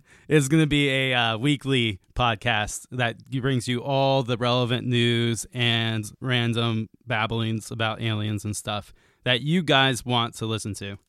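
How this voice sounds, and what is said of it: Hoarse, worn-out voice. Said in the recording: “my voice is a little bit shot, so I'm not going to be screaming”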